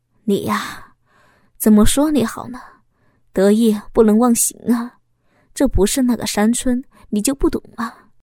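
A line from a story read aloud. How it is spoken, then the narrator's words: Sighing. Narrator (Chinese): 老公叹息了一声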